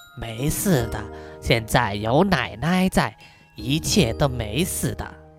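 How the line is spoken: Soft, comforting. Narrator (Chinese): 轻声的安慰小雪说

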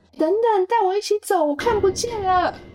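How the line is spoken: Shouting from behind. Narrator (Chinese): 小乐在后面喊着

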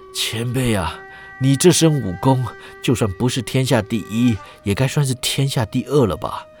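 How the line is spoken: Exhausted, panting. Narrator (Chinese): 郑恒洲累到了气都喘不动了，这才边喘边道

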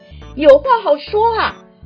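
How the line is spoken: Anxious loud shout through megaphone. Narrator (Chinese): 他心里一急，抓起喊话筒就对着海里的鱼虾、螃蟹大喊

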